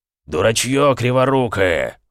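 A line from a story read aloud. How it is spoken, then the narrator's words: Roaring. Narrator (Russian): взревел Эмик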